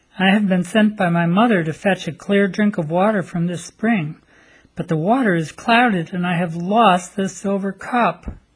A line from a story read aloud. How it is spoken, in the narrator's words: She cried bitter tears and said